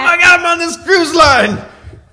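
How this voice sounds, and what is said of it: Screaming comedian impression. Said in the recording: “screaming, a lot of screaming ... Sam Kinison impersonator”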